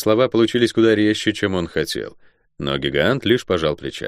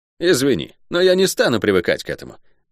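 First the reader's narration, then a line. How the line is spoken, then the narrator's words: Sharp, curt. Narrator (Russian): резко бросил Рандо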